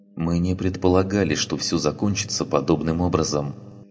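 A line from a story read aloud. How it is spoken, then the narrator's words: Soft. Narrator (Russian): мягко произнес он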